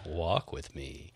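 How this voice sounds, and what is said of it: Sexy voice. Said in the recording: “He's the sexy voice.”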